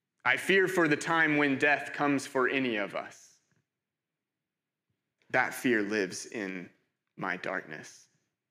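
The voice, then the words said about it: American accent. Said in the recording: “you can probably tell by my accent, not from here... I'm from America... Mine, mine is uh, slightly less hybrid. Mine's a little more American... my accent is often hard to place... I get Canada sometimes”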